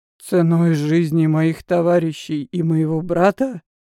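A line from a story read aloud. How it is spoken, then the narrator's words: Hoarse question. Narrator (Russian): хрипло спросил Азный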